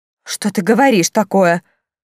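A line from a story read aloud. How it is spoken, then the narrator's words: Exclamation by viscountess. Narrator (Russian): воскликнула виконтесса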